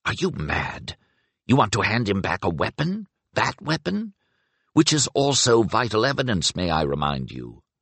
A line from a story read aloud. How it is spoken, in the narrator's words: whispered in a furious undervoice